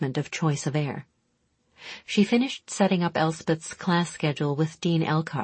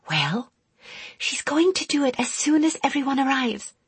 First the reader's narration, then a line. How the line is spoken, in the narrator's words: Elspeth breathed back